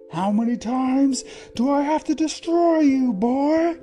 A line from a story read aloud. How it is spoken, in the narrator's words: he roared